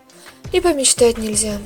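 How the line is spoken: Mock-sad sigh. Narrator (Russian): Деланно печально вздохнул он

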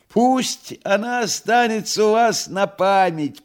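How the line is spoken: Shouting. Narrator (Russian): прокричал Фагот

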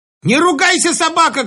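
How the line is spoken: Shout. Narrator (Russian): крикнула она

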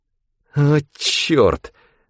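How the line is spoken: Hissing. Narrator (Russian): прошипел Рэндом

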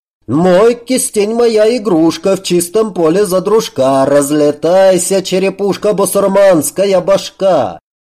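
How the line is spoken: Old man yelling while dancing. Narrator (Russian): Старик же, продолжая свой танец, завопил

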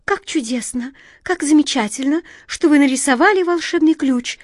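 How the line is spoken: Excited twittering bird. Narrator (Russian): взволнованно прощебетала ласточка

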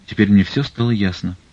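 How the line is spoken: Dejected, theatrically despairing voice. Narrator (Russian): упавшим голосом произнес в полном отчаянии, им же придуманным, им же актерски разыгранным

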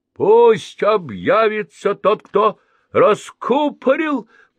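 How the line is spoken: Thunderous group shout. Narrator (Russian): прокричали громовым голосом все маленькие негритята

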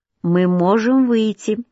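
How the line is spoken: Plain. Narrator (Russian): сказала Лилиан Дюнкерк

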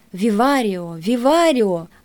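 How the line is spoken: Exclaiming, greatly cheered. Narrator (Russian): воскликнул чрезвычайно взбодрившийся на собственной тризне Леопольд Бар

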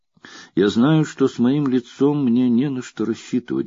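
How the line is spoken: Plain. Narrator (Russian): говорит она

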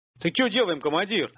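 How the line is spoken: Alarmed yell. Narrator (Russian): заорал жертв, увидев головы первых зомби, показавшихся над кустами у поворота дороги

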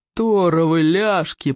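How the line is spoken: Growling. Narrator (Russian): прорычал Плевака

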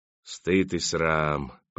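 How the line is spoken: Old man's hiss. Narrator (Russian): прошипел старик

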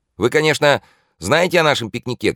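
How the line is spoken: Shouted from afar. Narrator (Russian): крикнул еще издали Свежевский

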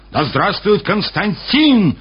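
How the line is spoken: Soldiers yelling. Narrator (Russian): орали солдаты

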